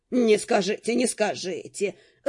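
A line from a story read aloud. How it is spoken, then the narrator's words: Laughing. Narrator (Russian): рассмеялся Линфокс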